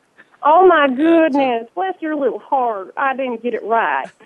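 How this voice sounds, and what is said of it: Put-on southern American accent. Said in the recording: “sounded like a southern grandmother ... more like a southern belle”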